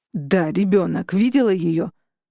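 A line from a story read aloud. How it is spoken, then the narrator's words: Growling. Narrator (Russian): прорычал Дэйв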